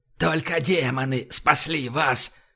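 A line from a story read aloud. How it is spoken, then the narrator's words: Hoarse croak. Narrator (Russian): прохрипел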